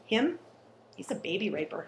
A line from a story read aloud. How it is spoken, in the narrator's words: Rocio said